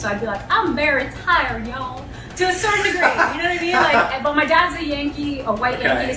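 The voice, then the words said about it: Southern American accent. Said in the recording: “my Southern accent is not a put on. I was born and raised in Atlanta, Georgia.”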